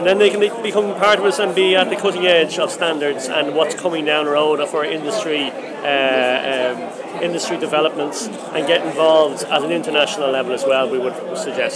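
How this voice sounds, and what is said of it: Dublin Irish accent. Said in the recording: “But you have a Dublin accent. ... I can hear it.”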